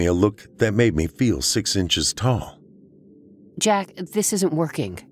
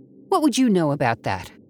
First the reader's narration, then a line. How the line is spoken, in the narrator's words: Abby snapped